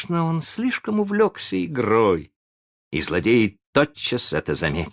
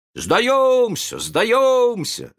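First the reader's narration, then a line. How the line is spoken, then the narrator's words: Shouting group. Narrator (Russian): закричали они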